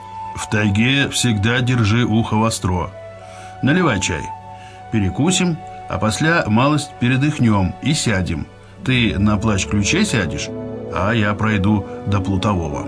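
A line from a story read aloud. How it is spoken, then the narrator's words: Deep bass. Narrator (Russian): Зотов-старший пробасил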